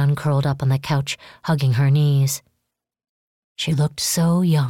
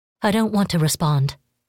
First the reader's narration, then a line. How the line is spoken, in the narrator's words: she said